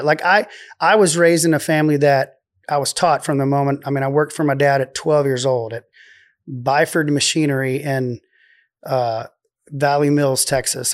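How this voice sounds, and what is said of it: Texan Waco accent. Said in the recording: “it's my Waco accent”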